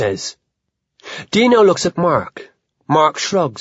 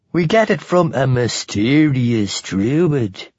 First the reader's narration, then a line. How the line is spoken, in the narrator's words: Dino says in a spooky voice